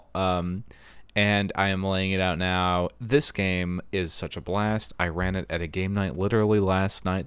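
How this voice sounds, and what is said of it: Hoarse voice. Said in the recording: “my voice is hoarse because I was laughing so hard”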